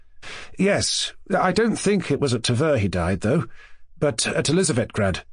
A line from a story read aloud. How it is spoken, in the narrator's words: Mushkin observed timidly to the general